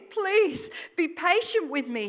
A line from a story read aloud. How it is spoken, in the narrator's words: he pleaded